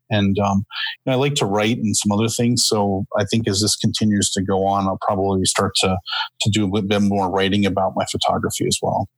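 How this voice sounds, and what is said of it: Speaker with a noticeable accent. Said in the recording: “you have a beautiful accent.”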